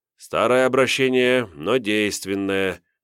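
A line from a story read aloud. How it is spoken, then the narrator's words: Sighing. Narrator (Russian): вздохнул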